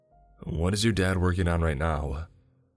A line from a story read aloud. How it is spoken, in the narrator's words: sighed before inquiring